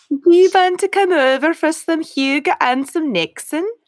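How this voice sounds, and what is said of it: Attempted Dutch accent. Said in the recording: “I don't even know if that's a Dutch accent.”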